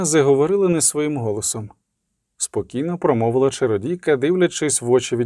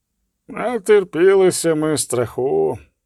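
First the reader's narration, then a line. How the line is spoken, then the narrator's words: Sighing confession. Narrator (Ukrainian): признався Весемір і зітхнув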